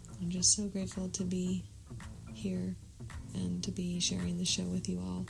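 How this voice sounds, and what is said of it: Calm, quiet voice. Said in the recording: “my voice is so calm”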